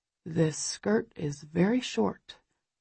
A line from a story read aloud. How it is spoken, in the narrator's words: he murmurs, vague disapproval in his voice